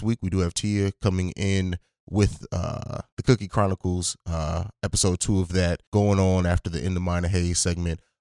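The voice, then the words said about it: Slightly sick-sounding voice. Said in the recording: “I've been getting over a sickness ... you probably still hear it in my voice a little bit”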